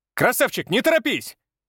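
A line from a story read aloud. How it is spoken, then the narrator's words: Shout. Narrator (Russian): крикнул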